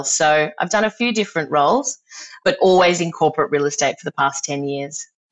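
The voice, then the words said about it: Australian accent. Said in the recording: “As you can probably hear from my accent, I'm from Australia”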